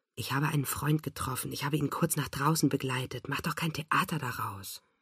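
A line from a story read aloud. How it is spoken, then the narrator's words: Murmured. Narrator (German): murmelt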